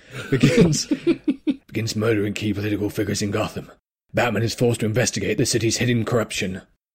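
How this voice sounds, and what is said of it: Gruff comedic Batman voice. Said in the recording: “Should I try and do it in a Batman voice? ... this is going to be Pete Holmes's Batman voice ... that's just Cartman”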